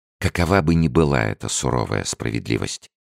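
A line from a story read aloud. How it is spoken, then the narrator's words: Fiery exclamation. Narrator (Russian): воскликнула Леонсия, сверкая глазами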